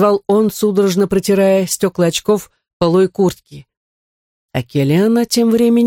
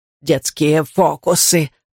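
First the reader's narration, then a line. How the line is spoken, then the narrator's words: Hoarse wheeze. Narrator (Russian): прохрипела Келиано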